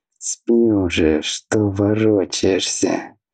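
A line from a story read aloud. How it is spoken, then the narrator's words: Displeased, annoyed mutter. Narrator (Russian): недовольно пробормотал Аобран, когда Атхи ткнул его ногой в попытках устроиться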